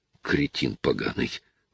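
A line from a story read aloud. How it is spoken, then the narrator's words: Grumbling. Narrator (Russian): ворчал он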